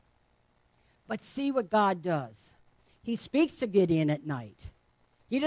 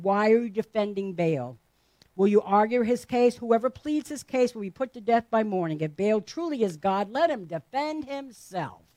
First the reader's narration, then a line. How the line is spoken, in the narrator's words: Joash shouted to the mob